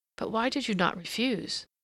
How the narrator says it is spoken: Some, the frankest, murmured

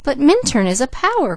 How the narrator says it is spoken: cried the girl

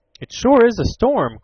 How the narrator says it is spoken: cried Ned

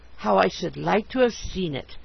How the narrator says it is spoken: I murmured to myself

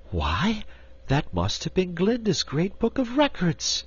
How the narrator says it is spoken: exclaimed Dorothy

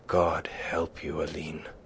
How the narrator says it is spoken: he groaned

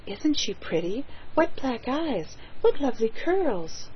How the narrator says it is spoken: she heard them whisper

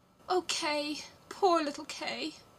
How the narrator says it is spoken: sighed Gerda

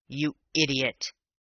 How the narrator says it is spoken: he snarled

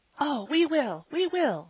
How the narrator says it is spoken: they cried

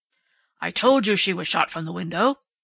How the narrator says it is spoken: Strawn reminded Dundee triumphantly

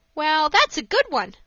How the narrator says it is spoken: laughed Dick

